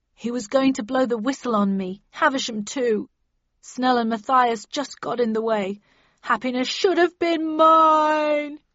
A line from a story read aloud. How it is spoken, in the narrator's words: he sobbed